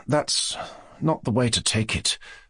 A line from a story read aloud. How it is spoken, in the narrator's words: Mushkin answered softly, and, as it were, reluctantly